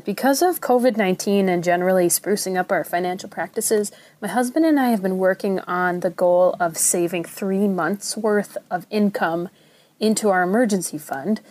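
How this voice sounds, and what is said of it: Minnesota accent. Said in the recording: “from the Twin Cities in Minnesota... It's okay if you think my accent is weird. It comes with the territory.”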